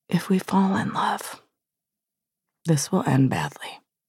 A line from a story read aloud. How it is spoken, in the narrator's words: whispered